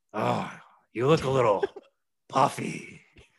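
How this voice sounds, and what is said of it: Imitation of Vince McMahon's voice. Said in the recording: “let me do my better Vince voice.”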